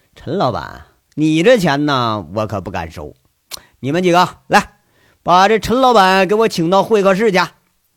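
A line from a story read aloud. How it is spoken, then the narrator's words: Smiling. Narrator (Chinese): 杨伟笑着，说着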